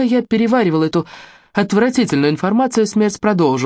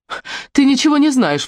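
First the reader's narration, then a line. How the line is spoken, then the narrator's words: Exclaimed. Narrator (Russian): воскликнула я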